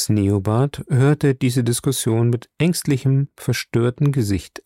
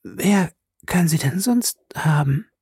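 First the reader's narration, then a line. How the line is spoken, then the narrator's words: Hoarse question. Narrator (German): fragte sie heiser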